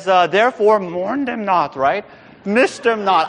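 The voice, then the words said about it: Bad Yoda impression. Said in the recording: “terrible Yoda impression”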